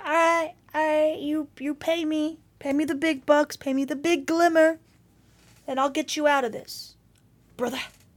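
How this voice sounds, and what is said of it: Deliberately bad character voice impression. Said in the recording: “Terrible Drifter impression.”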